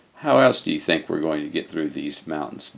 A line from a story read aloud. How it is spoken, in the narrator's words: Bill asked in a bored tone